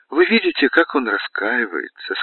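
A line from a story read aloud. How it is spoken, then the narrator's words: Said with a sigh. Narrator (Russian): сказала, вздохнув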